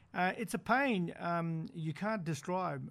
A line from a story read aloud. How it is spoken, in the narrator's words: Raylene Nixon says quietly